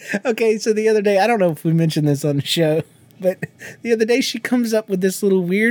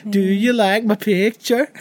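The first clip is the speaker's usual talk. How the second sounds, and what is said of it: Sing-song, almost Southern imitated voice. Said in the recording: “almost a southern weird accent ... it was like a tone thing ... it was almost a sing-song type of thing”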